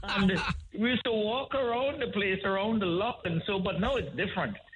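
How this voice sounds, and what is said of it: Trinidadian accent. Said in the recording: “I can pick up your Trinidadian accent there. It's a real funky accent.”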